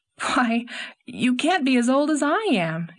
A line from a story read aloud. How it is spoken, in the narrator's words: exclaimed Anne